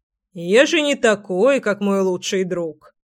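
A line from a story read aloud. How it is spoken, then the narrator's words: Short chuckle. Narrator (Russian): хохотнул Семен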